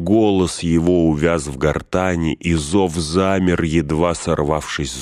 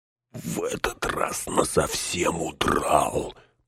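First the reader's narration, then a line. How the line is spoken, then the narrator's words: Grumbling. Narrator (Russian): пробурчал Сэм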